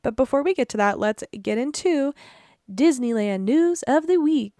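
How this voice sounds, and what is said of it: Newscaster-style announcing voice. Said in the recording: “newscaster voice”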